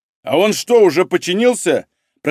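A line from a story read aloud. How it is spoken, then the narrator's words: Shouted question. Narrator (Russian): прокричал вопрос Малинин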